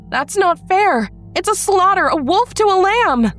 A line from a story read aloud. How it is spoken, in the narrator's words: I screamed